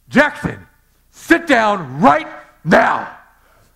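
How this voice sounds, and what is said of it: Stern, loud commanding dad voice. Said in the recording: “I've got this dad voice ... there's something about a big man's voice that changes things”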